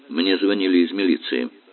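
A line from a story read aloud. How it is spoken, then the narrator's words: Dry. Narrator (Russian): сухо сказал отец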